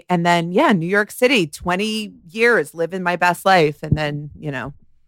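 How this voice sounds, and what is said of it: New Jersey accent. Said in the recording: “Jersey through and through, if you couldn't tell. The accent, as I said, it's not Long Island people. It's Jersey.”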